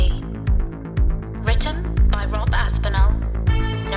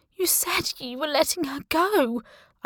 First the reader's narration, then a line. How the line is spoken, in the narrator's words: said, whimpering